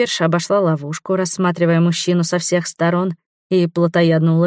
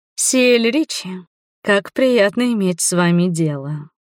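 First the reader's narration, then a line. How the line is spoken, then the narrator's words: Creature's purr. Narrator (Russian): промурлыкала тварь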